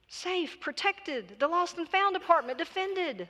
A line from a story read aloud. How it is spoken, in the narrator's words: the priest cried